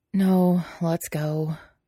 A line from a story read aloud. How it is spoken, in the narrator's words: he said, words taking the form of a long sigh against Lan Wangji's collarbone